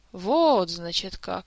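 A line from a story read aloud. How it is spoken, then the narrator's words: Drawling king. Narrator (Russian): протянул король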